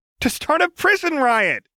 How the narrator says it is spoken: she chirped

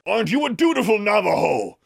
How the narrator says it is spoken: John yelled, this time from somewhere out in the desert

